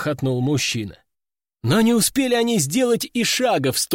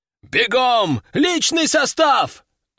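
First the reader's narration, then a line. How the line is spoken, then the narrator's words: Roaring. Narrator (Russian): взревел Варварел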